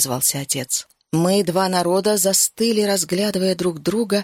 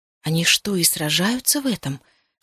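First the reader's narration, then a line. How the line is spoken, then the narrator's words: Whisper. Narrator (Russian): шепнула я Сиобан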